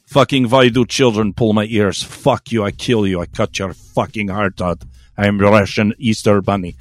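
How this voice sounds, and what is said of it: Weak put-on Russian accent. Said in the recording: “I can't really do a Russian accent”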